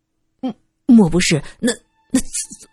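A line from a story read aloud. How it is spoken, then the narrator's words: Stammering. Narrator (Chinese): 结结巴巴的说道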